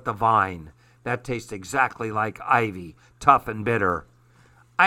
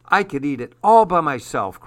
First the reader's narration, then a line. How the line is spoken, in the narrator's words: cried Paul